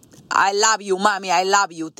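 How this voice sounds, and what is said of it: Cute accented imitation of mother. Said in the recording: “With her little cute accent”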